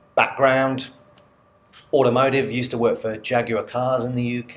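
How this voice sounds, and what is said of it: English accent. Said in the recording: “you probably gather from my accent quite quickly that I'm not a local boy. So originally from the UK, a place called Coventry in central England”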